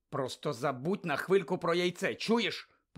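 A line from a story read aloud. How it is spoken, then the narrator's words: Hissed. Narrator (Ukrainian): прошипів Гаррі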